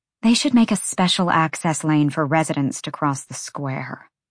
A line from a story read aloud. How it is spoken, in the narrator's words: Bryce muttered